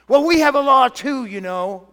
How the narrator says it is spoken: they shouted back

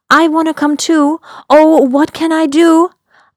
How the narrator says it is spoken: I blurted out

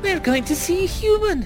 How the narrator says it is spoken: chirped Ola

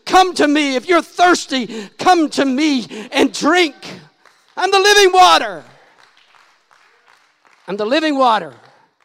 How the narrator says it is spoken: He's shouting

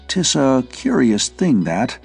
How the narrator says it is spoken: he said unsteadily

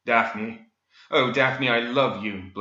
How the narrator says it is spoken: Blake blurted

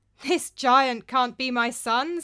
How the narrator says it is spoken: said, laughing

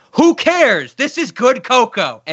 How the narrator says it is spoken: the waiter gets to scream at them

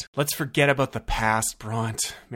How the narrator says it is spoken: Marigold sighed

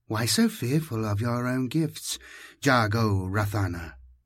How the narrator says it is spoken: my tormentor asked tenderly

